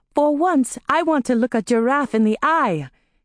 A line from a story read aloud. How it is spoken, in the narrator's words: he shouted